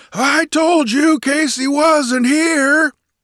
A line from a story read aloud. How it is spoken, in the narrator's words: roared cheerfully